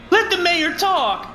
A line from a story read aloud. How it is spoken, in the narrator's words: Cheryl Cooper shouts